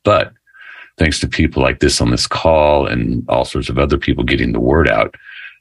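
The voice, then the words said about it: Rich, polished radio-style voice. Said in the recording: “you got the best radio voice.”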